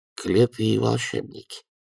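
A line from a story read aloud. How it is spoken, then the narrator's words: Absent-minded mutter. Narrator (Russian): машинально буркнул Эрни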